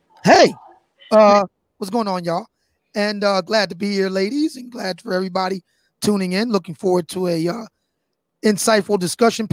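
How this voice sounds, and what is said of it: Worn, strained speaking voice. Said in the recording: “Please excuse my voice. I've been on the air better part of 6 hours today.”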